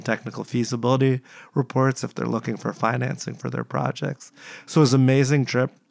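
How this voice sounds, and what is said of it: Slightly muffled, congested voice. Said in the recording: “I was sick actually leaving the trip ... I got sick again. So I apologize if my voice is a little bit muffled, but it's actually a lot better than what it was before.”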